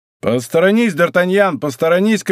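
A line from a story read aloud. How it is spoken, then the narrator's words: Shouting. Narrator (Russian): кричал Атос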